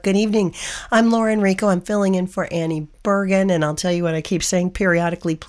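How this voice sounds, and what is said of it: Hoarse, froggy voice. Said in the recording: “Please forgive the hoarse voice. I'm a little froggy tonight”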